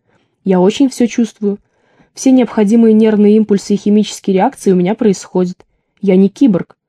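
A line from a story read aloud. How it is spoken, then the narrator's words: Calm lecturing explanation. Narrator (Russian): спокойно, как на лекции по истории древнего мира, пояснил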